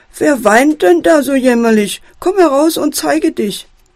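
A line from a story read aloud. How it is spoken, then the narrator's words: Fox calling loudly. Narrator (German): ruft der Fuchs laut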